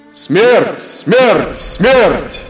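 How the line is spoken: Angry, devastated crowd shouting. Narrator (Russian): кричали опустошенные, разгневанные люди

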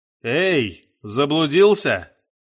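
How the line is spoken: Shout. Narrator (Russian): крикнул Рэп

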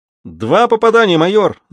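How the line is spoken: Official shouting. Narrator (Russian): закричал распорядитель

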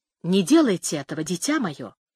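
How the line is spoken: Stout woman whispering. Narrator (Russian): шепнула дородная женщина

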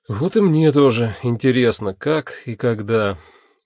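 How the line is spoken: Sigh. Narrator (Russian): вздохнул я

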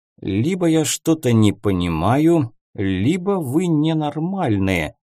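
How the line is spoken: Muttering. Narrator (Russian): пробормотал барон

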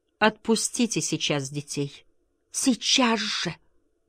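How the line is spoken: Pleading voice. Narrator (Russian): сказала умоляющим голосом

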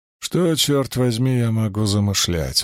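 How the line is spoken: Asked wearily. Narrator (Russian): устало спросил я

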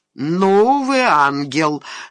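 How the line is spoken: Displeased grumble. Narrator (Russian): с неудовольствием проворчал прокурор

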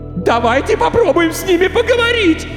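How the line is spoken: Hysterical female scream. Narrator (Russian): истерично кричала девушка

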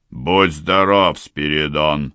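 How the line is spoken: Old man barking. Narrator (Russian): рявкнул старый запорожец

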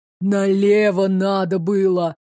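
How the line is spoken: Breathed out. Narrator (Russian): выдохнул Магута

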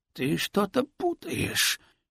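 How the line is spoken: Hoarse wheeze. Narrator (Russian): просипел

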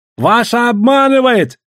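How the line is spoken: Shouting. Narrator (Russian): кричал он

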